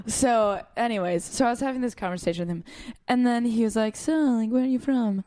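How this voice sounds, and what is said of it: American accent. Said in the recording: “my clear American accent”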